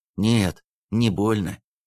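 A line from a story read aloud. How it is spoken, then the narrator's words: Strained, unfamiliar voice. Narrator (Russian): каким-то не своим сдавленным голосом вдруг произнес Андрей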